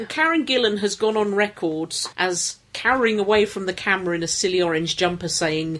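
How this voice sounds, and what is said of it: Usual voice. Nothing is said of it.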